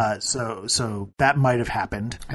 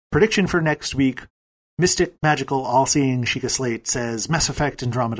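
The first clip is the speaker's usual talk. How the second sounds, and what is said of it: Weak attempt at British accent. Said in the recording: “Your accent wasn't nearly British enough”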